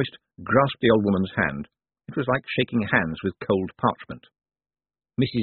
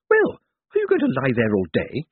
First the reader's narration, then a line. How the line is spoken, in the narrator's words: snapped